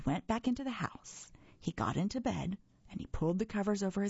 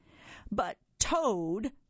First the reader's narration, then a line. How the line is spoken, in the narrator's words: cried Frog